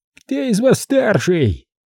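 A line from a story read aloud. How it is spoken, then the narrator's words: Shrill shout. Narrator (Russian): визгливо выкрикнул он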